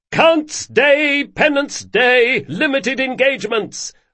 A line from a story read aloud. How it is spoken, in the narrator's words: hollered Carlo